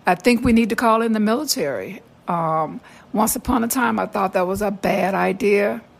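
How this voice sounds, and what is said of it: Raspy voice. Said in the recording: “excuse my raspy voice this morning”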